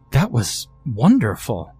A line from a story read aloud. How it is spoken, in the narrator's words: the counselor exclaimed